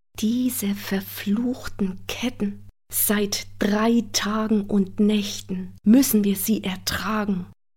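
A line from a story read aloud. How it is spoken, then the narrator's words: Whisper. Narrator (German): flüsterte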